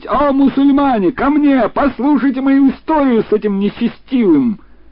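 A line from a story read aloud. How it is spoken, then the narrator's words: Loud wailing. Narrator (Russian): мой брат принялся вопить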